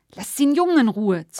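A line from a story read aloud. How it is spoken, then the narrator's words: Hissed. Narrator (German): zischte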